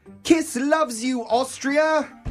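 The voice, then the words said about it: Put-on British accent. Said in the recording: “I don't know why I did a British accent.”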